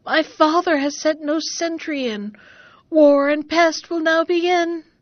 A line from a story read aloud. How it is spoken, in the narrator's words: sighing and weeping